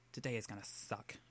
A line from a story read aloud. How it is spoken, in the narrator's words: McCoy mutters, scowling